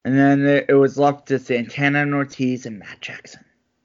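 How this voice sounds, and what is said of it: Dramatic narrator-style voice. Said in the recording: “You like my dramatic voice?”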